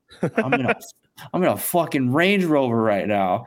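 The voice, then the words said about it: Put-on New York accent. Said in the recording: “He goes in his like New York accent.”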